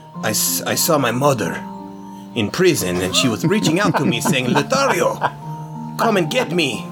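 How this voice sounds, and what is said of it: Character voice with new accent. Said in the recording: “You really do have a new accent. That's amazing. ... Lothario's new voice”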